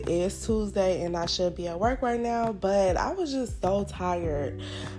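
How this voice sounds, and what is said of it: Slightly raspy voice. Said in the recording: “my voice sounds a little raspy right now, it is because I just woke up not too long ago”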